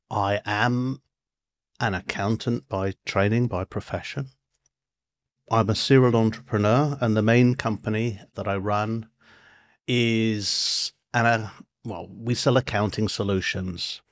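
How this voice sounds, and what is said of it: British accent. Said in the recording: “I'm a Brit, as you can tell by the accent.”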